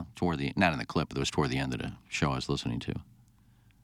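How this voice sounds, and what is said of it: Usual voice. Nothing is said of it.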